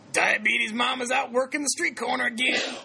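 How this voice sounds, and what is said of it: Impression of a coworker's voice. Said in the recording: “That's how he talks, by the way. I do the best gym impression.”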